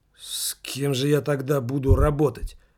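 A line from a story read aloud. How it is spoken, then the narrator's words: Displeased muttering. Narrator (Russian): недовольно пробормотал Марианский осьминог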